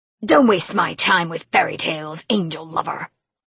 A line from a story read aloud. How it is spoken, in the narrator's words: he spat